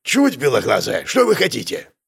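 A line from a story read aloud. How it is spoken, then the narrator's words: Angry. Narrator (Russian): Дарья зло выдала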